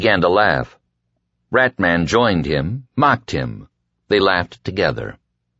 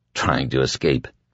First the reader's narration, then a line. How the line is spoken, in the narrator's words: Larry murmured